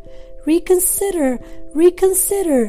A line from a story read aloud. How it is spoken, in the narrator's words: cried the goose